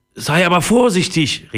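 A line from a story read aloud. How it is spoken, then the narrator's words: Calling after someone. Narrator (German): rief Papa ihm nach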